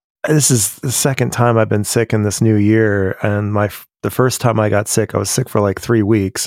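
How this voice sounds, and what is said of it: Sniffly, slightly cracky voice. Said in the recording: “Got a sniffle, so my voice might be a little cracky.”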